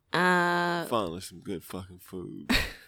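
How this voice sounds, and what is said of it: Poor imitation of a celebrity chef. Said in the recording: “In my best Gordon Ramsay voice ... That was a terrible impression ... It was bad”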